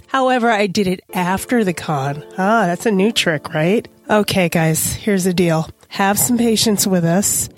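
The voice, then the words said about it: Hoarse, strained sick voice. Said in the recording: “Yes, I am sick. Yes, I did lose my voice.”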